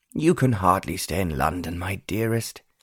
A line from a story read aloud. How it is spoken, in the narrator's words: Lord Wickham sighed